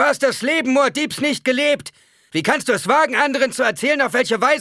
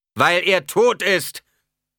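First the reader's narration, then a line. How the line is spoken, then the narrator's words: Preacher thundering. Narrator (German): donnerte der Prediger ihn an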